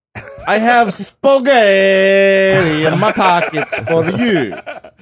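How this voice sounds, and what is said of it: Put-on Italian accent. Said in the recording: “Excuse my accent”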